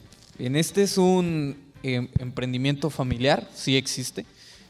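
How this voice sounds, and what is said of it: Usual voice. Nothing is said of it.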